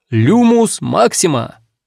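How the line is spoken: Loud incantation. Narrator (Russian): произносит громко

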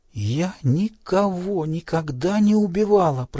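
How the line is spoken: Whisper. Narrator (Russian): прошептала Селен

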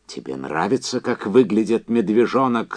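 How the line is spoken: Yelling. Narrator (Russian): заорал он

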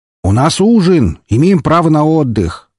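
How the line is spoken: Shout from crowd. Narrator (Russian): выкрикнул кто-то из толпы

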